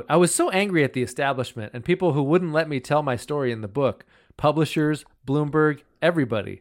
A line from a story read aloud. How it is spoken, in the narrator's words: she says